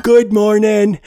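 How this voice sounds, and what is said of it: Cartoon character voice impression. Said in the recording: “that is obviously my terrible impression of Uncle Grandpa”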